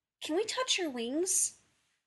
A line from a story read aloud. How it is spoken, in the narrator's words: one of the little girls, asking sweetly, eagerly